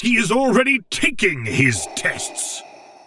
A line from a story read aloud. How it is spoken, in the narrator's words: Vader bellowed at the comm